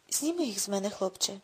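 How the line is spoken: Hollow, hoarse plea. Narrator (Ukrainian): попросив він глухим, хрипким голосом

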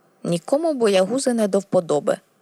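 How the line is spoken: Grumbled. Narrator (Ukrainian): буркнув

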